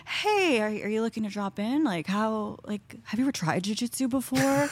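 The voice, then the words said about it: Imitates another person's voice. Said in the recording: “This is a good impersonation.”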